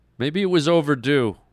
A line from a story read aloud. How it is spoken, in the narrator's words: Brett blurted out